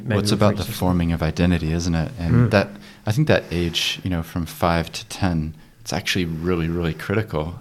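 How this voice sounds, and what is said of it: Speaks with a noticeable accent. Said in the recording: “I have an accent”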